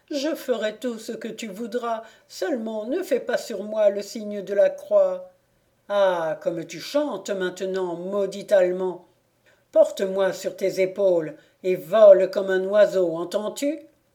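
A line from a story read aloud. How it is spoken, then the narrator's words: Devil groaning. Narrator (French): dit le diable en gémissant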